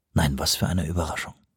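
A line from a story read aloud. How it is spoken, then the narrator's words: Quiet. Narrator (German): sagte Johansson leise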